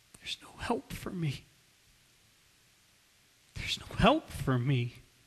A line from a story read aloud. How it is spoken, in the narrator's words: And he just whispers through his tears